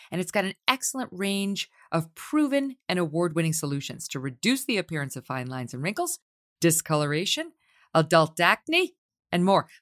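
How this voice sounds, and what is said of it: Staten Island accent. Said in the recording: “It's my Staten Island accent.”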